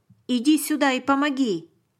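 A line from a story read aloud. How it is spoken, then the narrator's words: Soldier shouting. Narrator (Russian): крикнул один из солдат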